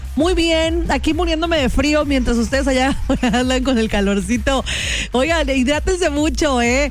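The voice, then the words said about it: Veracruz Alvarado Mexican Spanish accent. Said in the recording (Spanish): “¿Tienes acento como alvaradeña? ¡Sí! Allá tengo mis raíces. Del meritito Alvarado.”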